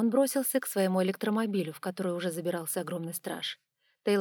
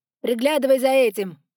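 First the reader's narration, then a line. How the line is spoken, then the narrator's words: Shout in English. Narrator (Russian): крикнул Тейлор на английском языке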